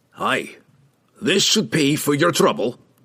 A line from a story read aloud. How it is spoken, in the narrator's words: growled, never pleased to be relieved of money